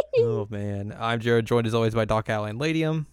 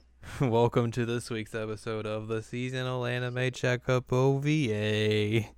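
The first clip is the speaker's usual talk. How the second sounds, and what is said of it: Flat monotone delivery. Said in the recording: “Why are you so monotone?”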